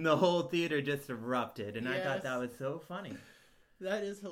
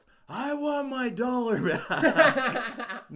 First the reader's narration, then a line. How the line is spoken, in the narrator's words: he just shouts